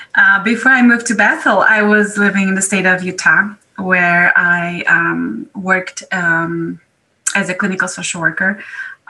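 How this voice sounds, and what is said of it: European accent. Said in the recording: “I am originally from Europe. I have a strange accent, as you can notice.”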